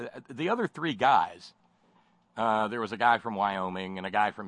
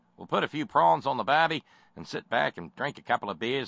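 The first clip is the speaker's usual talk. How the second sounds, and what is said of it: Terrible put-on Australian accent. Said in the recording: “my terrible Australian accent”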